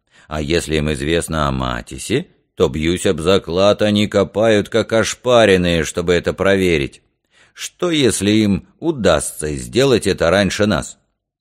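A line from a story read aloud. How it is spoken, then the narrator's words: Disgusted grumble. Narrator (Russian): Краутхаммер проворчал с отвращением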